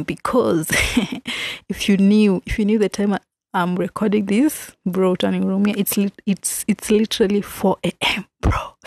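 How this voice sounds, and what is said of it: Kind of whispering. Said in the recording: “hear from my voice that I'm kind of whispering”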